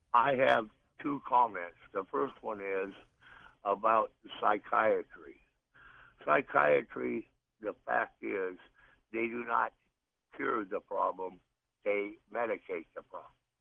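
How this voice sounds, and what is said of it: Rough, sick-sounding voice. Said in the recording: “apologize for my voice. I'm recovering from pneumonia.”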